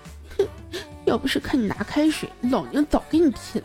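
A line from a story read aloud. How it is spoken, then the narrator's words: Quiet muttering. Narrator (Chinese): 军良在那小声的嘟囔说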